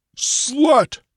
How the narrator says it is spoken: His booming voice

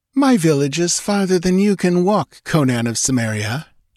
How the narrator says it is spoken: she laughed

